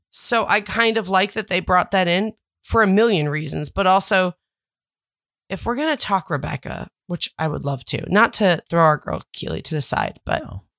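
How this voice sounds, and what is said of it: Sick-sounding voice. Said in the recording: “as you can tell by my voice, I am still sick.”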